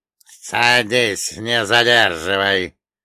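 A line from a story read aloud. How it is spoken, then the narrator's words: Mocking, threatening, through teeth. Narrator (Russian): процедил Черномор, и в его голосе прозвучала насмешка, смешанная с угрозой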